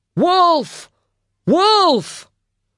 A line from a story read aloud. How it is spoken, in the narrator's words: shouted